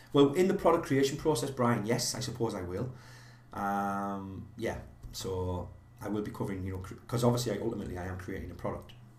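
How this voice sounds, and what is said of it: Northeast English accent. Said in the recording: “is my accent Scottish? No, but it's very close... northeast of England”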